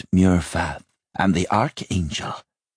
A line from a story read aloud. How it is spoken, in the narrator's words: Towser said with a sigh